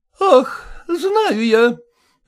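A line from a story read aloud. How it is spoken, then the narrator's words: Sigh. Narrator (Russian): вздохнула Колкина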